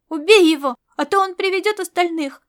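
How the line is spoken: Boys shouting. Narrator (Russian): закричали мальчишки

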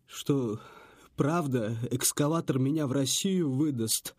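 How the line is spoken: Trembling babble. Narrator (Russian): дрожащим голосом пролепетал Сэм

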